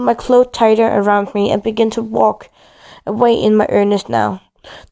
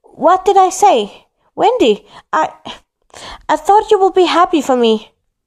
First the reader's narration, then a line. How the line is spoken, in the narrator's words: he shouted back